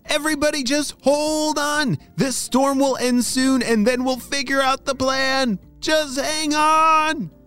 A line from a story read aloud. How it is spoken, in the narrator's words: shouted Apollo